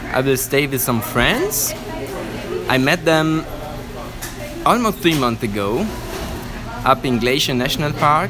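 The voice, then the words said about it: Italian accent with slight Swiss tinge. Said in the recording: “your accent... It's not a typical Italian accent... there's a bit of a Swiss... Swissness”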